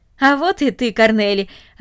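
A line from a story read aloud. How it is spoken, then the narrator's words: Joyful. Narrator (Russian): радостно сказал он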